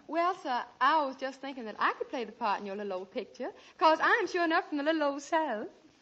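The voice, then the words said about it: Put-on Southern American accent. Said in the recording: “a girl with a southern accent ... I could have sworn you came from Boston.”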